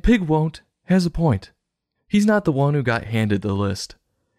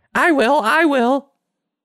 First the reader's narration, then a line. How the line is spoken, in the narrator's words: Pig Will shouting